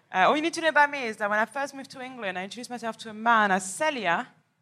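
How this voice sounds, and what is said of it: French accent. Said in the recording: “accent that you're hearing is going to stay on the whole time... This accent is from France”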